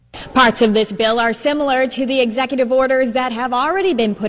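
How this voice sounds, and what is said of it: Strong Boston accent. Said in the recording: “Boston has a very famous accent ... That's distinct. ... Very distinct ... put the cod in Harvard Yard”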